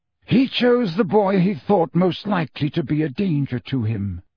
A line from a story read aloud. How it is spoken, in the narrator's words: said Dumbledore